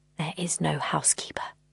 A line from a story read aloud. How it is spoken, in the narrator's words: he whispered